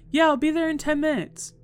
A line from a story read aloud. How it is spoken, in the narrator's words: loudly confirming